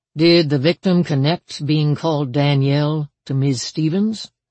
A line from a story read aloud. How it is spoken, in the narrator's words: Mize asked